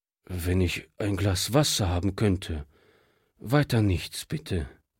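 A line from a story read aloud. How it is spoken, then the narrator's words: Tired refusal. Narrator (German): wehrte dieser müde ab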